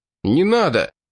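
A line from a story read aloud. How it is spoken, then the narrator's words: Desperate shout. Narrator (Russian): Храбров в отчаянии закричал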